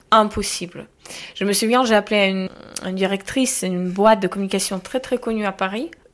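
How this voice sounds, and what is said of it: Ukrainian accent in French. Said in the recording (French): “j'attends votre accent, vous, vous venez d'où j'ai dit Ukraine”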